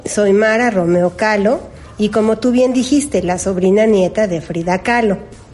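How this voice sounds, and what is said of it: Mexican Spanish accent. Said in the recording (Spanish): “ese acento tan bonito desde México”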